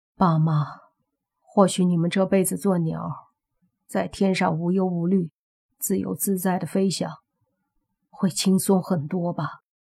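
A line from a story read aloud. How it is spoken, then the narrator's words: Sighing. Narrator (Chinese): 莫凡叹了口气，说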